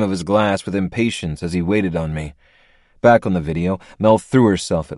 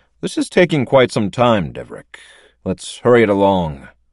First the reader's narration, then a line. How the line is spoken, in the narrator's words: he said in a bored tone